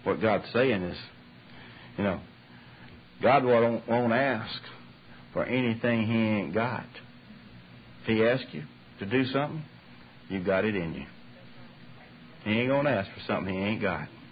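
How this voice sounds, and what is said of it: Put-on Louisiana Southern accent. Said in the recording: “I'm going to use a little Louisiana accent here so y'all don't grade me on my English.”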